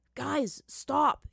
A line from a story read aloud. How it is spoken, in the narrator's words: shouted as the force of the rain increased